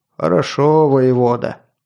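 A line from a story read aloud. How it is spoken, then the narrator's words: Deep bass voice. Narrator (Russian): пробасил сотник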